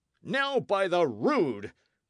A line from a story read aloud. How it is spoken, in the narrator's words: cried Sir Daniel